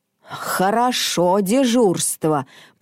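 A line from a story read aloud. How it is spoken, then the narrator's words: Father grumbling. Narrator (Russian): пробурчал папа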